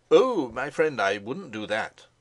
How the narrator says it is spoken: cried Helsing

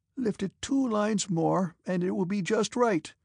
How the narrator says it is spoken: cried he in a feeble voice to which he tried to impart a dashing note, ill-suited to his weak figure

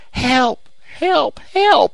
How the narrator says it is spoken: she shrieked in a voice that must have penetrated to the remotest cabin in the valley

